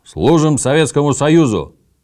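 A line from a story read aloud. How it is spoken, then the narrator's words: Ragged group bark. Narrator (Russian): рявкнули мы не очень громко и стройно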